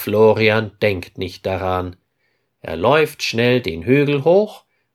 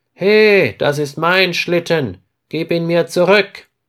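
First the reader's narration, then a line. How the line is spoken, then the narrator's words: Calling out. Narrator (German): ruft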